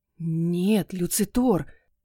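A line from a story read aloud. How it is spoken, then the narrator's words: Hoarse strained rasp. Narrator (Russian): прохрипела я, с трудом сглатывая вязкую слюну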